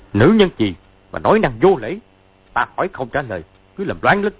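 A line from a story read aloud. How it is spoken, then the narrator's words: Angry speech. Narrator (Vietnamese): giận dữ nói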